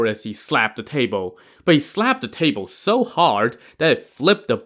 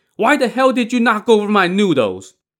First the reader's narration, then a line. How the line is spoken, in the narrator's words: shouted